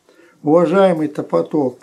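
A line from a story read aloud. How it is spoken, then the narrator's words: Squeaky voice. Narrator (Russian): пропищал Пищелин Пикович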